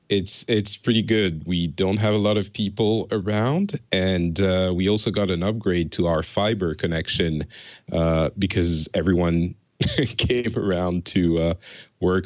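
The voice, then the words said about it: French accent, not Finnish. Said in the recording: “is a emigre from France. You might notice his accent does not sound Finnish.”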